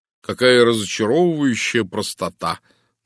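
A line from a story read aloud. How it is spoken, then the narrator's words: Mocking groan. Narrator (Russian): насмешливо простонал я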